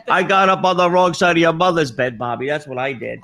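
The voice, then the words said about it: Yelling. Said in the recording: “I'm yelling”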